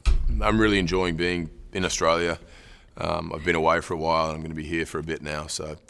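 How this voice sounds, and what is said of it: Put-on Australian accent. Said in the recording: “what ranks up at the top is Australian, though... How is Chris Hemsworth?”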